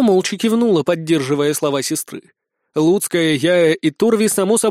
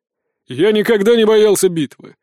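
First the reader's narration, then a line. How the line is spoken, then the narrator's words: Snorting. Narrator (Russian): фыркнул Меньшиков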